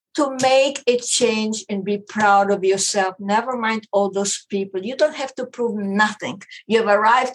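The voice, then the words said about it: Strong foreign accent. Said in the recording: “my accident voice, I hope you understand me... He couldn't stand my accent. I cannot understand you.”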